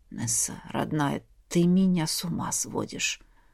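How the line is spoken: Breathless. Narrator (Russian): выдохнул Айрс

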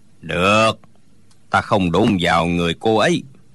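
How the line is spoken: Old man sighing. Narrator (Vietnamese): Lão già thở dài nói

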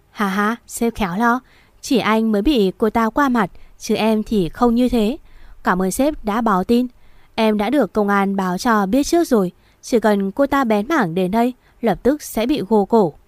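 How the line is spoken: Loud laughter. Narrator (Vietnamese): Tên Luân cười lớn

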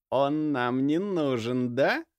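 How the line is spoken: Through gritted teeth. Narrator (Russian): процедил мужчина

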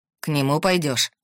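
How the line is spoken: Growl. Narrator (Russian): прорычал

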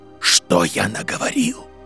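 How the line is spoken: Whisper. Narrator (Russian): прошептал он

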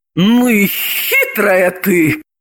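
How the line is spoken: Exclaiming. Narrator (Russian): воскликнула Елизавета

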